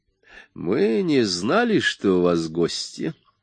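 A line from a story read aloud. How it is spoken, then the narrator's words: Velvety apologetic voice. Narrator (Russian): извинился Брандт бархатным голосом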